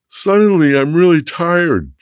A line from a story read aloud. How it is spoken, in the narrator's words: Jack said, yawning